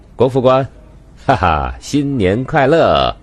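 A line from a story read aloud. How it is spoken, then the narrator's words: Laughing. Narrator (Chinese): 明台笑道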